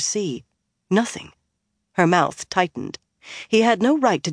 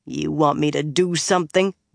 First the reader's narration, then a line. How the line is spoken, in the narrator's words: Rand growled